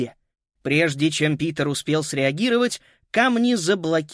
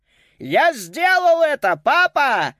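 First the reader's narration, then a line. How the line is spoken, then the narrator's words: Wildly ecstatic shout. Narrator (Russian): закричал он в диком восторге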